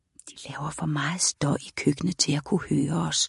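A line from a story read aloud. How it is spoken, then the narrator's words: Whispered reply. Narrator (Danish): hviskede Lyra tilbage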